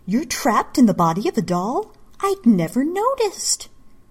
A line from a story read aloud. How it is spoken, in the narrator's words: Misa exclaimed with mock surprise